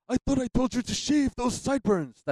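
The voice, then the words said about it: Poor Mr. Burns impression. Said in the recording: “terrible Burns impression”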